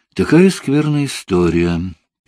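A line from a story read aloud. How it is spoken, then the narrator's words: Sad speech. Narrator (Russian): печально проговорил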